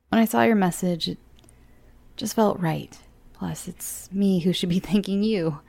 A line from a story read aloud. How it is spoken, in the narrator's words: chuckled